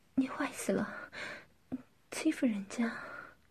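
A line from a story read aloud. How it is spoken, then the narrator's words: Breathless, panting. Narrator (Chinese): 夏丽金气喘吁吁地说道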